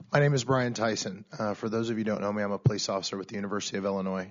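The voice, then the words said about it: Congested, sinus-affected voice. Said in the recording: “apologize for my voice. Going from 70 degrees to 20 degrees does not make my sinuses do well.”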